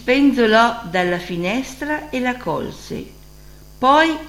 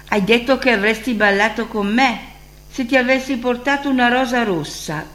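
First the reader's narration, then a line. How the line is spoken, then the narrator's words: Student's exclamation. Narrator (Italian): esclamò lo studente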